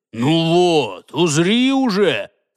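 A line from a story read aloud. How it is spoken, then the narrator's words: Growling. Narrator (Russian): прорычал Джаргул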